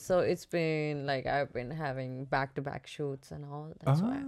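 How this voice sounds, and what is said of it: Raspy voice. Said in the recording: “my voice is very crispy right now... Raspy... Raspy, and crispy”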